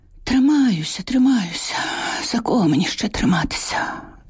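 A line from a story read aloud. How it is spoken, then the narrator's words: Sighing. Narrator (Ukrainian): Зітхнула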